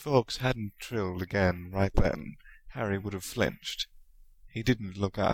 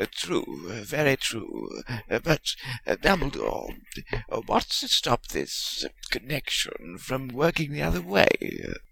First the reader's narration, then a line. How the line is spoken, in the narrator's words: he muttered